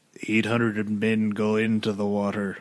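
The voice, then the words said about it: Impression of a film character. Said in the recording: “your impression of, what's his name? ... It's pretty good ... It's a fine Quint.”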